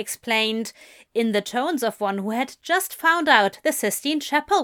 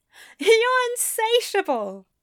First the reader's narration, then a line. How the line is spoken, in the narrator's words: Aziraphale said with a laugh